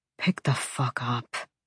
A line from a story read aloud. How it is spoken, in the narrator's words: he muttered